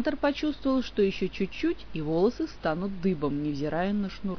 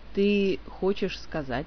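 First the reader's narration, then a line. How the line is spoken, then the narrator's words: Slow. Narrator (Russian): медленно произнес он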